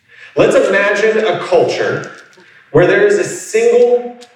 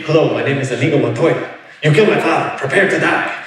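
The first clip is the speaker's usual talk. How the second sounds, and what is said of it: Bad put-on movie character accent. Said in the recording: “I have a really bad accent for it”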